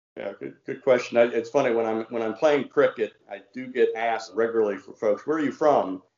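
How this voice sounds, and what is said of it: Slight American southern accent. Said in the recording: “you have a slight southern accent, not super thick, ... but you can tell you're from south of the Mason Dixon line”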